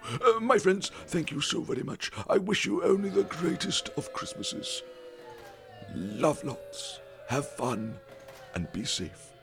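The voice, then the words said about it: Silly Father Christmas character voice. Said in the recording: “Can I stop doing this silly voice? Father Christmas indeed.”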